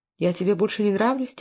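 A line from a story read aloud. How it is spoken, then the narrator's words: Quiet question. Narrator (Russian): тихо спросила Сара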